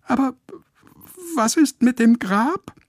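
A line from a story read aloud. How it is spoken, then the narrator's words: Squeaking. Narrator (German): piepst Lotte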